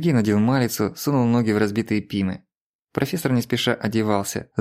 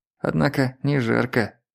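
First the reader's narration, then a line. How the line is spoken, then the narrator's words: Muttered. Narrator (Russian): пробормотал он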